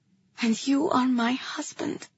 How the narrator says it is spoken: I returned, my voice quiet but clear

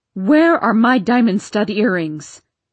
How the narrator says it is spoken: shouted Aunt Elsbeth

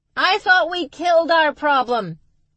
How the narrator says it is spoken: Max yelled back

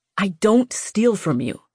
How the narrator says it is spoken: Vex hissed

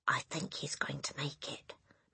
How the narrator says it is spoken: Matilda whispered

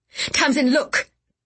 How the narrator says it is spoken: Gideon cried

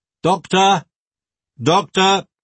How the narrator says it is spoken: she shouted

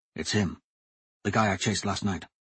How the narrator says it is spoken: Royce whispered

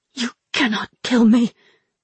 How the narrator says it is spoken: choked San Sheng Mu

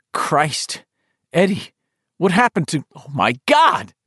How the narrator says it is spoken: Ben cried

